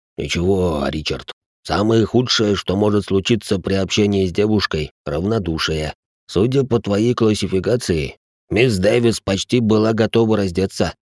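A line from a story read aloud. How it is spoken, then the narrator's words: Grumbling. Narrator (Russian): пробурчал Салих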